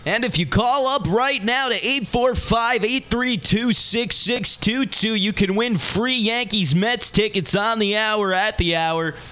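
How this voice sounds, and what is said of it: Cheesy radio DJ voice. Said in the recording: “don't use a radio voice because no one wants to hear it”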